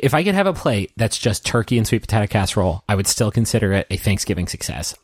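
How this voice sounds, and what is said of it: Noticeable accent, distinctive 'potato'. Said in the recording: “You keep saying potato. It's real cute. ... you know how non-cognizant I am of my accent?”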